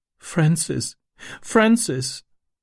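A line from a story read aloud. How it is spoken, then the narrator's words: Sobbing. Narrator (German): schluchzte sie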